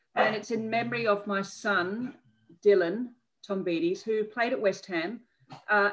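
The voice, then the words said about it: Non-British accent. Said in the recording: “I'm sure people can can tell from your accent, that you're not originally from the UK”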